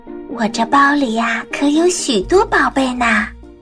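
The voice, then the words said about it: Quiet, hushed voice. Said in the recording (Chinese): “小声地说”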